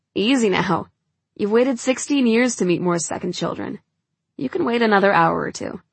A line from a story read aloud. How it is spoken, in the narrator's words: he laughs and says